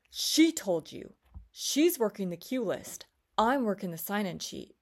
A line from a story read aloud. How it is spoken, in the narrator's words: The phlebotomist angrily declares to me